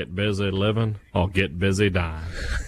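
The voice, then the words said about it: Imitates another person's voice. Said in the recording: “Not your best impersonation there, Morgan ... I can't do Morgan that well, no. Nobody should be able to do it. His voice is very unique.”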